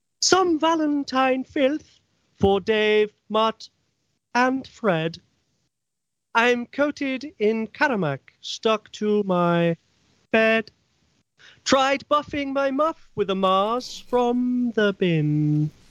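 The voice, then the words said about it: Doris McSquirter character voice. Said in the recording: “my special McSquirter voice”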